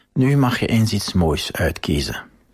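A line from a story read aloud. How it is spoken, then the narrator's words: Whispering. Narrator (Dutch): fluisterde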